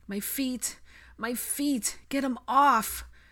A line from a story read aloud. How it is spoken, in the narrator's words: Blaze panted